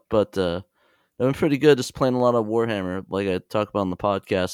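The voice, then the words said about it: Sick, messed-up voice. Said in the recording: “I'm kind of sick, so my voice is kind of messed up.”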